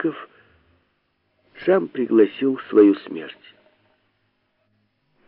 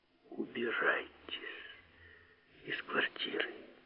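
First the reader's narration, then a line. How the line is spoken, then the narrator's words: Warm intimate whisper. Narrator (Russian): задушевно шепнул Филипп Филиппович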